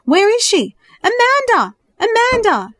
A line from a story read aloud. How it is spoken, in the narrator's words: she cried out in terror